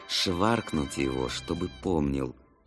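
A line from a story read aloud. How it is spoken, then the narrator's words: Tired, through clenched teeth. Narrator (Russian): утомившийся Алик процедил сквозь зубы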